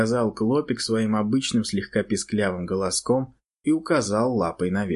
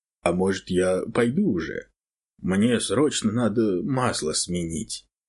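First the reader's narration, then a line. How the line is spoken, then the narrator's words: Plain question. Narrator (Russian): спросил животное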